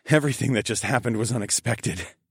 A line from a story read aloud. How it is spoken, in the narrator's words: chuckled